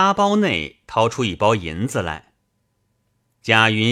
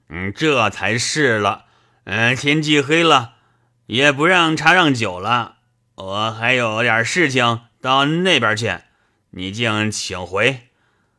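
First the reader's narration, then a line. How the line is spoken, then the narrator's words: Laughing. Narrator (Chinese): 倪二笑道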